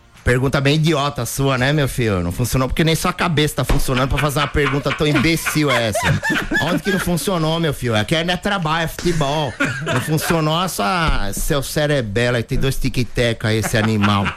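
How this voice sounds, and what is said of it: Imitates another person's voice. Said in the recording (Portuguese): “ele gosta bastante quando eu faço o Muricy ... ele pede o Muricy ... Você fica pedindo imitação”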